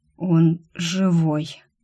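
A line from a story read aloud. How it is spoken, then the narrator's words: Hoarse breathy voice. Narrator (Russian): хрипло выдохнул Рик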